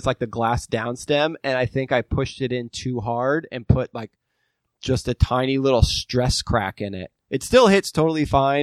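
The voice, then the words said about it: Voice slightly changed by a cold. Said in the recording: “I felt like I've had a cold, and so my voice has been a little different.”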